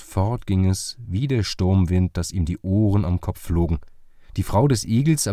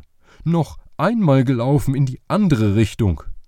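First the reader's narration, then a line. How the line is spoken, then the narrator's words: Calling out. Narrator (German): rief er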